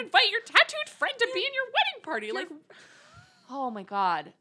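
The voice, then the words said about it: High-pitched, upset voice. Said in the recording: “my voice gets this high when I'm very upset... When she gets super upset.”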